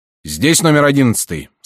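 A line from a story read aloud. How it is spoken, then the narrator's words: Plain. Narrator (Russian): спросил он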